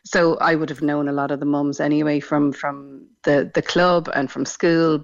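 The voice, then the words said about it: Irish Dublin accent. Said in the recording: “As you may have guessed from my accent, not from Cork originally... we moved down from Dublin”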